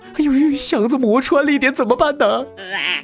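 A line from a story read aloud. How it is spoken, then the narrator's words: Tearful question over phone. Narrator (Chinese): 快递师傅电话里带着哭腔问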